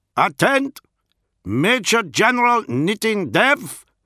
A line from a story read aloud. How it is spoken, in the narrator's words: the Lucifer called out in his thick Iskian accent